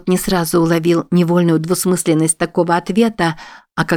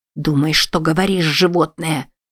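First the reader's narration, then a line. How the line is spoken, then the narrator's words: Tearful hiss. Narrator (Russian): прошипела она, полными слез глазами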